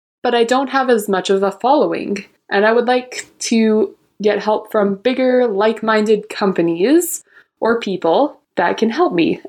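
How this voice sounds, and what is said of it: Speaks with a noticeable accent. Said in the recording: “I love the accent.”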